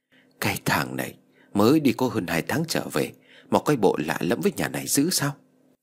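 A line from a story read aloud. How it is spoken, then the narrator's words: Old woman muttering. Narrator (Vietnamese): bà Tư lẩm bẩm nói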